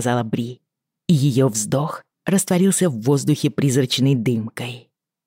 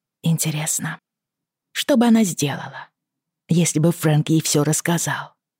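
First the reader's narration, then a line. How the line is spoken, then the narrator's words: Said softly. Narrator (Russian): тихо промолвила Бри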